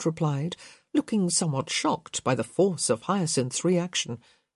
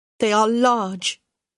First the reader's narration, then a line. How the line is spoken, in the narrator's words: Hyacinth said bitterly